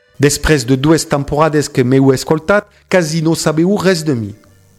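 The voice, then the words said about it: Strong foreign accent. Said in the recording (Catalan): “el meu accent horrible”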